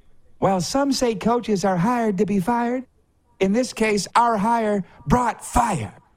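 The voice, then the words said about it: Imitates another person's voice. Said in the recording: “I'll try and do my best pinner imitation.”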